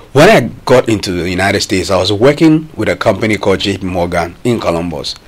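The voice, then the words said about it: Ghanaian accent. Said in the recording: “I'm from Ghana. Immediately had my accent.”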